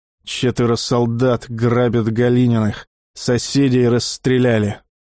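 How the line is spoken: Through gritted teeth. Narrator (Russian): Александр проговорил сквозь зубы

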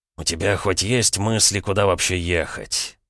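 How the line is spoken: Tired question. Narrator (Russian): устало поинтересовался князь, прервав молчание

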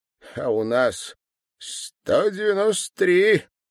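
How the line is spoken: Loud laughter. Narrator (Russian): Иван Петрович громко рассмеялся

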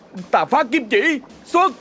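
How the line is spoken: Loud battle shout. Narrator (Vietnamese): Tèo hét lớn

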